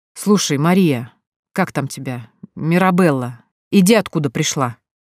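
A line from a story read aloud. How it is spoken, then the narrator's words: Sour, disgusted. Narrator (Russian): скривился Юнусов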